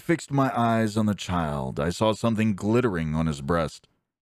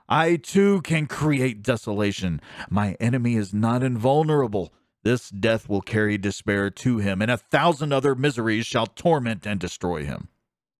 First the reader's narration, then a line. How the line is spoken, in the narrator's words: I exclaimed